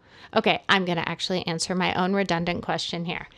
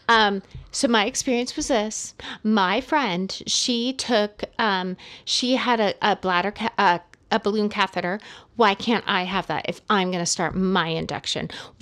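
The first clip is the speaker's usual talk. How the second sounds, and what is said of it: Whiny mocking voice. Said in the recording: “I'm trying to use a whiny voice. Like I'm trying to mock”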